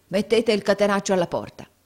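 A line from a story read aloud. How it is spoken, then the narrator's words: Yelling. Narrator (Italian): urlò Squeers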